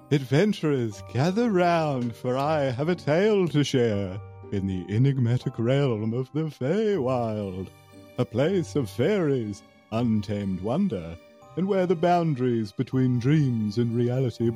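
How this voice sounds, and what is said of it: Spooky storyteller voice. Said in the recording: “spooky voice”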